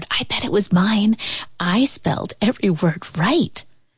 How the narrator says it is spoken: Kwame whispered

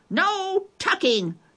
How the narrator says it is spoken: the crew yelled

